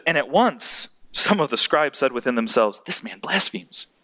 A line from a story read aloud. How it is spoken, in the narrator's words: whispering to each other